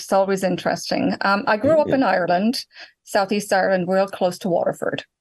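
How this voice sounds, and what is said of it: Irish accent. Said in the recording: “that's a different accent”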